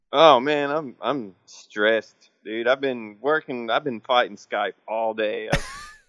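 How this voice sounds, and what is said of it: Tired-sounding voice. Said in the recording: “Why you sound so tired”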